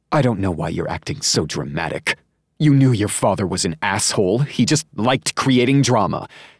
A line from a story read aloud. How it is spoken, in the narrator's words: she snapped